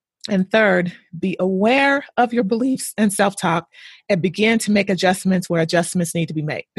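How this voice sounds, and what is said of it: Hoarse, fading voice. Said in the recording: “Excuse me, I'm losing my voice here. I'm getting so passionate about this.”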